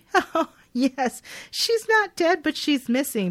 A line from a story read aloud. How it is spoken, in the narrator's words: The lady on the end of the phone chuckles and says lightly